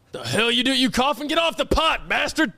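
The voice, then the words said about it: Angry trucker character voice. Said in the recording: “I'll roleplay too. I'm an angry trucker”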